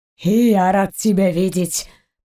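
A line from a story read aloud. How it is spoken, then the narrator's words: Hoarse wheeze. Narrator (Russian): просипел Заури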